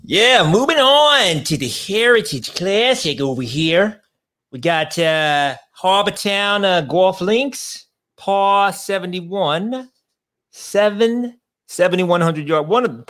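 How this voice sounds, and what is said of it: Put-on Boston accent. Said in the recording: “What was that accent? ... That was a Boston accent, but it was unnecessary”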